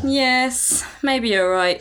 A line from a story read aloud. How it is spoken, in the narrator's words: sighed Faye